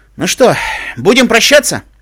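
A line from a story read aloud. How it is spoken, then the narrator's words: Shouting over engine roar. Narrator (Russian): стараясь переорать рев мотора, крикнул Руслан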